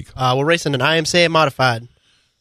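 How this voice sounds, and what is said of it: Southern American accent. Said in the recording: “southern accent”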